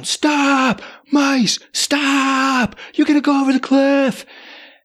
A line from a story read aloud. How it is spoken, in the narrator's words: I'm shouting